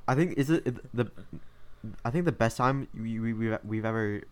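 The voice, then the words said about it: Stuttering speech. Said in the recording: “Why am I stuttering so much?”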